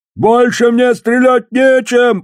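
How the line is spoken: Shouting. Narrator (Russian): прокричал он

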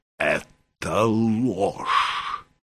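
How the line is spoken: Hoarse wheeze. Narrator (Russian): прохрипел он

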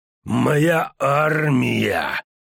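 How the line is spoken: Hoarse wheeze. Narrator (Russian): прохрипел Хенсельд

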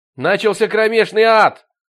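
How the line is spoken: Shouted while running upstairs. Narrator (Russian): крикнул он, взбегая по лестнице

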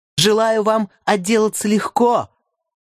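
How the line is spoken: Woman shouting after someone. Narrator (Russian): крикнула мне Нора вдогонку

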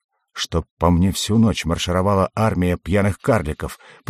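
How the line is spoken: Muttered. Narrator (Russian): пробормотал я

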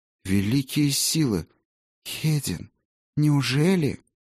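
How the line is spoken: Whisper. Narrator (Russian): прошептала она

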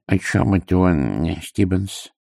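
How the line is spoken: Muttered from mouth corner. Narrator (Russian): пробормотал он уголком рта

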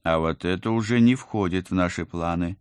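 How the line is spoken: Menacing. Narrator (Russian): грозно сказала я

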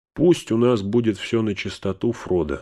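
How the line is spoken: Plain. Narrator (Russian): сказал он

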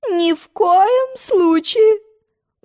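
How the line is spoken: Exclaiming. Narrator (Russian): воскликнула королева

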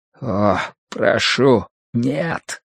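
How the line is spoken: Barely audible breath. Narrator (Russian): еле слышно выдохнул Сыма Цянь

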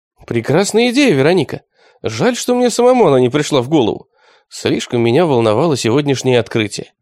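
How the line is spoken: Cheerful. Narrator (Russian): весело сказал Константинов

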